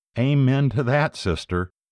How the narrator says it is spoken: Sister Loretta, who burst into laughter and then said

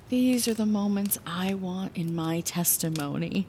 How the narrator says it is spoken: I sighed, releasing everything inside of me in this moment of vulnerability

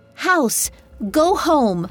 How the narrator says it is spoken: she shouted

